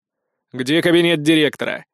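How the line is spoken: Barked. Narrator (Russian): гаркнул я

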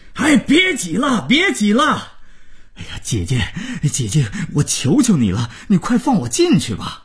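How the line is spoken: Groom roaring. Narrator (Chinese): 新郎大吼着

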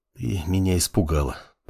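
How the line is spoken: Whisper. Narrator (Russian): прошептал он

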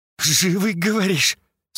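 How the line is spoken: Question through gritted teeth. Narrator (Russian): Сквозь зубы спросила Ольга

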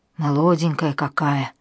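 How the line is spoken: Sigh. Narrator (Russian): вздохнул Василий Иванович

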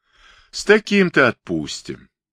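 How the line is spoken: Laughing. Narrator (Russian): засмеялся толстяк

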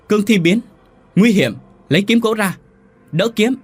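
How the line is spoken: Shouting. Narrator (Vietnamese): ông Tần hét lên

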